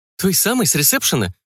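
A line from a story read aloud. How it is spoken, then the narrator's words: Surprised exclamation. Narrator (Russian): удивленно воскликнула Габен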